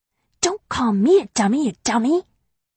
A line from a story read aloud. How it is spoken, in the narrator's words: I whisper back